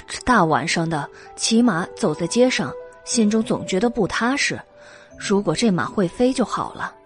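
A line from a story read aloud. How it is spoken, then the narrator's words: Sighing. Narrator (Chinese): 原耀叹道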